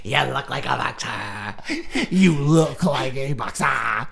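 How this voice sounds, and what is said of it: Little goblin boxer character voice. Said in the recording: “That impression ... the voice that you're doing reminds me of like a 4'11" goblin boxer ... It's like a goblin Brad Pitt boxer leprechaun”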